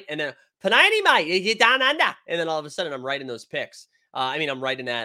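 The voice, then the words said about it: Put-on Australian accent. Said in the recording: “when I do the Australian accent”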